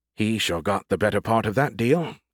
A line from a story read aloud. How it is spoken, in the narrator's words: Skippy muttered